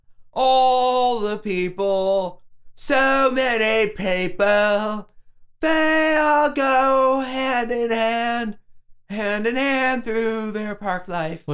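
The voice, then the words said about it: Singing in a put-on British accent. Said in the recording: “I was singing it. ... My British accent I've been working on.”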